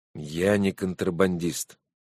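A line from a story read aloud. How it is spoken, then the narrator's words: Tired. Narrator (Russian): устало сказал Макс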